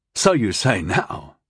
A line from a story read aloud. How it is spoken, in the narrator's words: chuckled Rondal